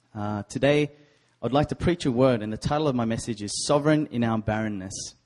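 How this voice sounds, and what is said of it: Australian accent. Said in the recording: “originally from Sydney, Australia, born and raised. I have a sexy accent.”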